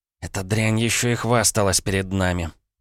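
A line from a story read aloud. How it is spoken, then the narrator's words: Through gritted teeth. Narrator (Russian): процедила Маша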